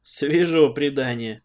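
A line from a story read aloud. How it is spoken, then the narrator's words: Skeptical snort. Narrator (Russian): хмыкнул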